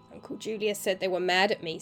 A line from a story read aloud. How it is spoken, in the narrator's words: said the boy